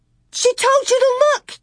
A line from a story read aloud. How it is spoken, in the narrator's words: Carrie screamed